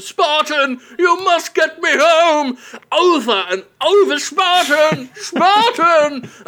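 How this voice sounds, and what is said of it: Whiny old man voice. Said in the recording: “the whiniest old man voice”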